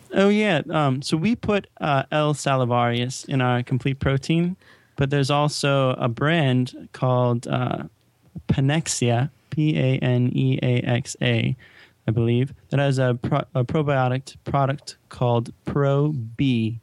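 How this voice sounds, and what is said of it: Speaks with a noticeable accent. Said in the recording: “The accent makes you even hotter”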